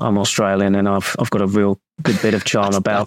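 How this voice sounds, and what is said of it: Ange Postecoglou impression, Australian accent. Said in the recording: “can we have a Postecoglou impression ... That's not terrible ... his Postecoglou impression because I didn't think it was very good”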